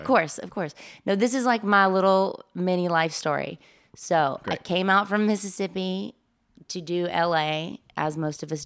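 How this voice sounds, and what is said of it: Southern American accent. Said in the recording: “she's got that southern accent.”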